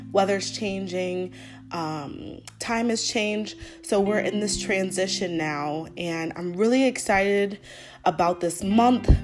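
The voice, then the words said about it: Voice a little off from cold. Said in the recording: “apologize for my voice, it's a little off. I've been feeling a little under weather ... I think I caught a cold”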